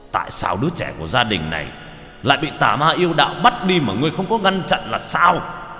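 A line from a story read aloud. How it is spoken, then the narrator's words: Roaring. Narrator (Vietnamese): Hắc Hổ gầm lên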